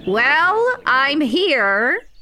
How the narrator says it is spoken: said, practically shouting

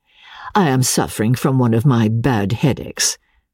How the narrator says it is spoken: I answered coldly

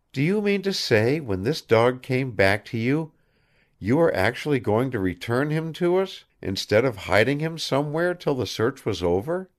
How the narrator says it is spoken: she said very quietly

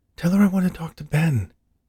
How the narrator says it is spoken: Eleanor pleaded

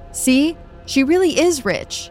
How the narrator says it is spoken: yells out

